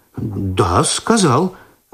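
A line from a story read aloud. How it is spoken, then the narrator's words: Confused confirmation. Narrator (Russian): растерянно подтвердил Починский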